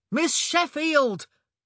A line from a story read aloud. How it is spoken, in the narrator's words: came Colin's impatient holler from up the hill